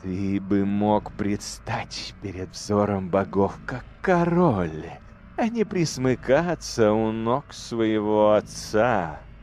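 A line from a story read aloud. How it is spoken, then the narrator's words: Flattering drawl, female. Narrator (Russian): Льстиво протянула демоница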